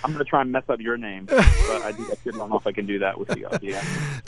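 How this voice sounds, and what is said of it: Australian accent. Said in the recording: “you with this this down under accent, my goodness, man... the Australian accent's”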